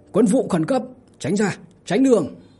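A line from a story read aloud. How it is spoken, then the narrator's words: Loud shout. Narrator (Vietnamese): Lý Trung Dung hét lớn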